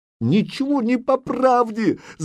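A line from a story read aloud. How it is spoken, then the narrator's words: Shouting. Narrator (Russian): закричала Зарица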